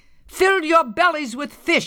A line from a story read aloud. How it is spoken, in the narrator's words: she shouted